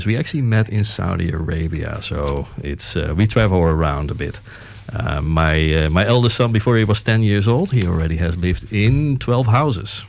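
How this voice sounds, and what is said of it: Dutch accent in English. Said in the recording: “you do get an accent with it because I'm born in the Netherlands”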